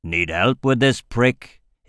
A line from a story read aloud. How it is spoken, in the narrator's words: He growled